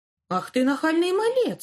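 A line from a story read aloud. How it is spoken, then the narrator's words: Exclaimed. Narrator (Russian): воскликнул он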